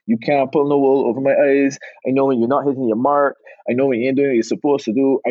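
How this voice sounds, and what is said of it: Bajan Barbadian accent. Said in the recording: “You did a good Bajan accent. You shine from Barbados. ... I love to hear your accent.”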